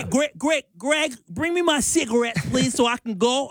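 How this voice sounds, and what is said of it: Mixed New York-Boston accent. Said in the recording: “do your half New York, half Boston accent”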